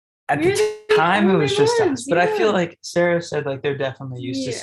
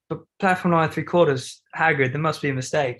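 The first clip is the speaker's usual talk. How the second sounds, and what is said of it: Imitated accent. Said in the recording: “Look at that accent. ... My roommates are way better at it. I'm just trying to mimic them.”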